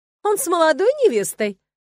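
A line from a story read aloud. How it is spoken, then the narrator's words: Woman's snorting reply. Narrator (Russian): хмыкнула в ответ женщина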